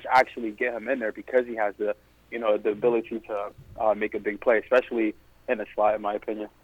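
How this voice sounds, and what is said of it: New York accent. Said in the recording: “I'm hearing like a New York accent ... I know I heard a kind of accent.”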